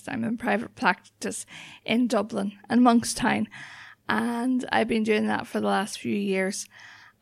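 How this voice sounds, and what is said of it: Northern Irish accent. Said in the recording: “people get confused with the accent sometimes. I'm originally from County Antrim ... I grew up just outside Belfast ... I also trained in Scotland, so the accent can change from time to time”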